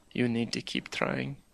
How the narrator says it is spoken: said very softly

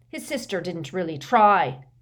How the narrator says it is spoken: said McLagan menacingly

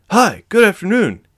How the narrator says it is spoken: he said cheerfully

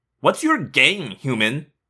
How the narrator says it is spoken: She sneered

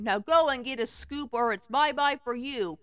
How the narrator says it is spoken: he said sternly

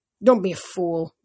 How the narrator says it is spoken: Ethan groaned

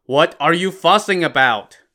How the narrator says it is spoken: shouted at his workhands

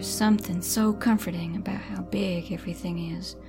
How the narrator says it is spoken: said Lucy, dreamily

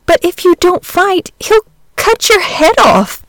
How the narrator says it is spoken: gasped the boy, miserable at the prospect of losing both his fight and his friend

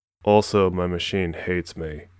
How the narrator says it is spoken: she answered sullenly

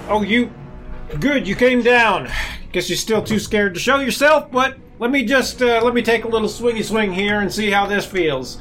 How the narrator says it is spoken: I'm like

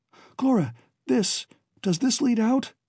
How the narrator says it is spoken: Alan panted

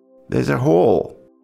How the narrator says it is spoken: Bugsy says in a grave voice

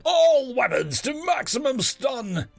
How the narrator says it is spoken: Captain Maruam yell

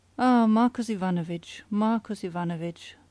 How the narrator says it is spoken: sighed the inspector

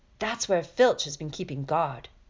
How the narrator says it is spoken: Ron muttered

